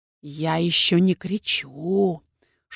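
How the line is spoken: Whisper turning furious rasp. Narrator (Russian): Шепот инквизитора сменился на яростный хрип

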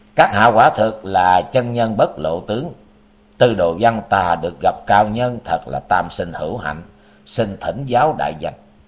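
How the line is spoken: Cold question. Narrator (Vietnamese): Tư Đồ Văn lạnh lùng hỏi

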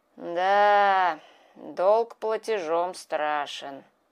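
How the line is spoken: Sighing. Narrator (Russian): вздохнул Кощей

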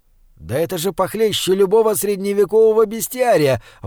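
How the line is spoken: Exclaiming. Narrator (Russian): воскликнул Николай Викторович

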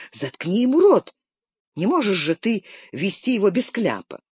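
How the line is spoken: Exasperated exclamation. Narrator (Russian): Наконец она не выдержала и воскликнула

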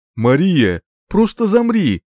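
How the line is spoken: Laughing shout. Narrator (Russian): смеясь, крикнул Ридер

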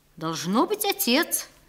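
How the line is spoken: Thoughtful answer. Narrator (Russian): ответил он задумчиво, как будто этот вопрос не приходил ему в голову

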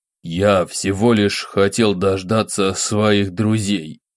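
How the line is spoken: Through gritted teeth, restrained. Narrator (Russian): процедил сквозь зубы Федор, пытаясь удержать маску невозмутимости

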